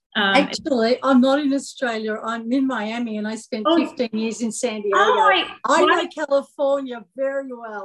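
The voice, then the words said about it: Accent that sounds Australian. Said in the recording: “because you're in Australia ... Because of the accent.”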